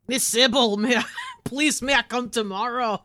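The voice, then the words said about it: Attempted Scottish accent. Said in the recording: “is that your attempt at a Scottish accent?”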